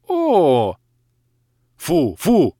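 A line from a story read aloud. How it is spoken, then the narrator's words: Alarmed yelling. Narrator (Russian): завопил я, увидев, как девушка медленно опускается вниз, а ее шаловливые ручки уже вовсю теребят пояс моих штанов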